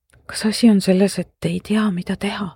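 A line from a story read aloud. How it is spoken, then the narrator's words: Whispered. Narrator (Estonian): sosistasin marglikult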